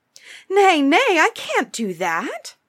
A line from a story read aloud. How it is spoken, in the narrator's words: Jack cried in alarm